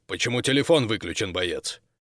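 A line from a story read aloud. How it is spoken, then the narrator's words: Abrupt growl. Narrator (Russian): подполковник сходу рыкнул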